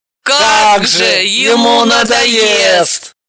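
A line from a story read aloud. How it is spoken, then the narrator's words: Howling in chorus. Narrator (Russian): взвыли все хором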